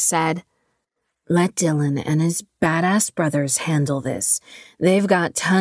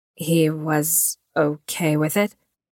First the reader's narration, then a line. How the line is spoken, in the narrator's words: Vi asked nervously